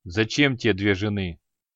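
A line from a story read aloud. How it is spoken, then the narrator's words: Gloomy inquiry. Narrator (Russian): мрачно осведомился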